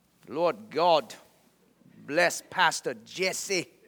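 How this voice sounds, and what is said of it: Imitated Chinese accent. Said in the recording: “he started praying over me in his Chinese accent.”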